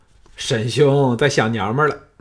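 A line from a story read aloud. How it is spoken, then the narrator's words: Laughing. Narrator (Chinese): 一个叫费纯的笑道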